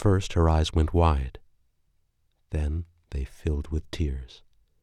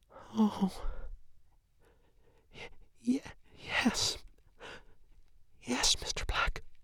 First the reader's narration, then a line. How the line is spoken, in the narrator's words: gasped